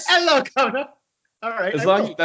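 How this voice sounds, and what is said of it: Put-on English accent. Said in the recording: “Can I do it in an English accent?”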